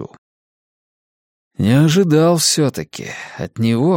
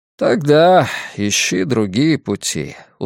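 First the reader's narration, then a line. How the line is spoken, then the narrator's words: Weary. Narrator (Russian): устало говорит Дик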